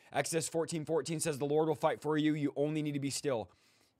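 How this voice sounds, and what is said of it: Hoarse, fading voice. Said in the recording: “My voice is going out ... my voice is like, is going out”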